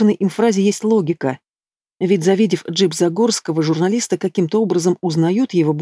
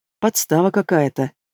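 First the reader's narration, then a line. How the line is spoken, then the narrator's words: Barely audible mumble. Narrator (Russian): бубнит еле слышно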